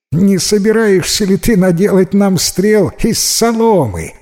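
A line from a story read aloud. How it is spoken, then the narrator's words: Group mocking laughter. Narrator (Russian): рассмеялись придворные советники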